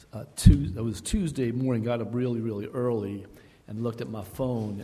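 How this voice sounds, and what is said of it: Teary, emotional voice. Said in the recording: “I'm a little teary-eyed this morning. I'm a lot teary-eyed this morning.”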